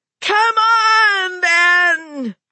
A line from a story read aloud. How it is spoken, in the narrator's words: she screamed at him